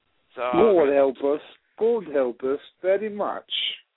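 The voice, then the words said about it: Put-on British accent. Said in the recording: “I started doing a British accent”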